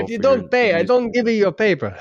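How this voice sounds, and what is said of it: Mobster voice. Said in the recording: “impersonations ... We're all of a sudden mobsters for a moment.”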